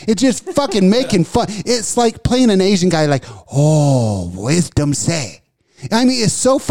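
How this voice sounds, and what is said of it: Usual voice. Nothing is said of it.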